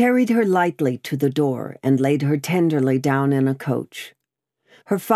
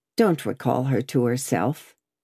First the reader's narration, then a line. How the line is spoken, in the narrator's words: he said softly